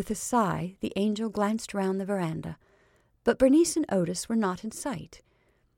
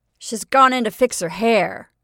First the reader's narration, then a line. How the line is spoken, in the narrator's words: he announced wildly